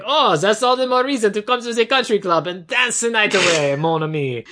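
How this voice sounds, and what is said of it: Put-on foreign accent. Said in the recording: “you are doing the accent better than him now, so dial it back worse”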